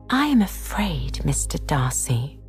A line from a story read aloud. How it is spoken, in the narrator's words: observed Miss Bingley in a half whisper